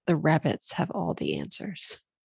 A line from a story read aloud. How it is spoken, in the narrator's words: a panicked man ran by me one night and whispered